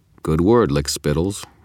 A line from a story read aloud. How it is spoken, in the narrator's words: I replied, keeping my voice bland